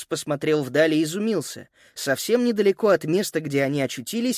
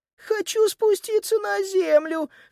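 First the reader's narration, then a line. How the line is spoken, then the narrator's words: Sniffling squeak. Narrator (Russian): шмыгая носом, пропищала Сузи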